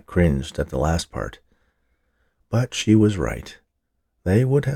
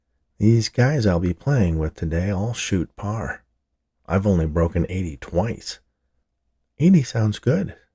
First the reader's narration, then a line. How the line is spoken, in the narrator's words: said Sarah